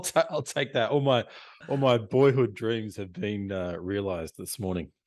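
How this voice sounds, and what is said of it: Australian accent. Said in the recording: “as you can tell, basically by ... uh, accent already, you know he's he's in Australia”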